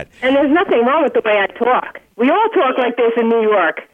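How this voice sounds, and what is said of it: Thick New York accent. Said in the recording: “Redneck accent ... You've still got your northern accent, your New York accent. ... It's pretty thick. I don't think she's going to lose it anytime soon.”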